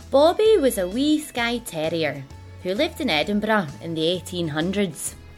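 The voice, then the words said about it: Scottish accent. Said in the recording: “in my best Scottish accent”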